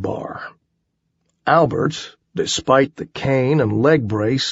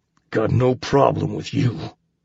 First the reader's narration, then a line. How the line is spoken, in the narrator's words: the giant said through gritted teeth